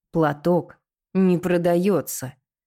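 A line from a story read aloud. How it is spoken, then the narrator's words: Through gritted teeth. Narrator (Russian): повторил Твен сквозь зубы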